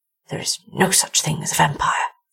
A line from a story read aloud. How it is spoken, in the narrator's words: whispered to himself